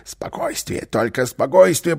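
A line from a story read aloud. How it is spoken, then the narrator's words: Whisper after a fall. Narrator (Russian): прошептал Карлсон, когда во время своего стремительного бегства они вдруг споткнулись и упали на пол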